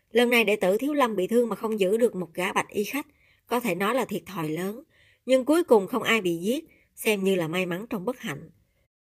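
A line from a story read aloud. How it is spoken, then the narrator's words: Old monk sighing. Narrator (Vietnamese): Lão tăng thở dài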